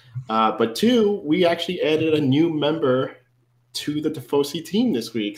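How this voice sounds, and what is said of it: Slightly nasal, congested voice. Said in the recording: “apologize for my voice if I'm a little nasally. A little cold.”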